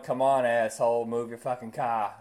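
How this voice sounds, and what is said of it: Put-on Boston accent. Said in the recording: “I sound like I was from Boston”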